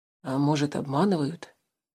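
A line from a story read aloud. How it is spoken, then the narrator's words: Quiet speech. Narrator (Russian): тихонько проговорил Тулис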